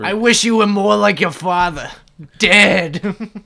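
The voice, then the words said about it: Middle-aged Brooklyn woman accent. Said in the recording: “How did you get my mom's accent? ... so perfectly ... She's like some middle-aged Brooklyn.”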